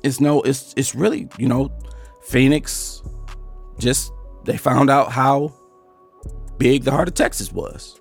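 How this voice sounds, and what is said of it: Hoarse, strained voice. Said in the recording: “I don't know why I sound like I'm losing my voice”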